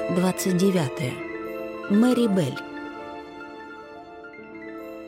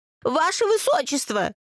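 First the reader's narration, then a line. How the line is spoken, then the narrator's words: Young woman's shrill squeal. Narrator (Russian): визжала девица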